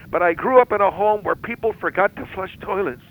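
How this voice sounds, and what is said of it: Emotional, close to crying. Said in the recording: “Now it sounds to me like you're getting emotional... A little bit”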